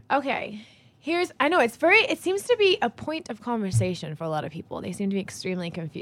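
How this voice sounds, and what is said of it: Mixed English and American accent. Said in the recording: “What kind of British? ... your accent is difficult to sort of pinpoint. ... It's all over the place. ... They either think I'm faking an American one or faking an English one.”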